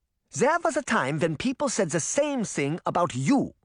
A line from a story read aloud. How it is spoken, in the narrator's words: Relda said angrily